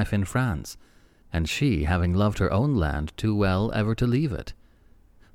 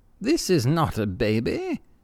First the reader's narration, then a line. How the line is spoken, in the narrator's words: exclaimed in startled tones